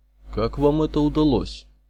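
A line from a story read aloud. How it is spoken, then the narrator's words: Stern old man's question. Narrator (Russian): строго спросил подошедший старичок, руководитель группы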